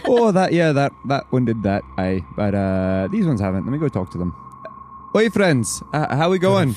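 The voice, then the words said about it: Put-on accent, different from before. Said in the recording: “I've changed my accent again. Now I'm doing something different.”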